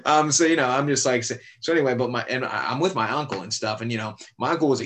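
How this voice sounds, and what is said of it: Usual voice. Nothing is said of it.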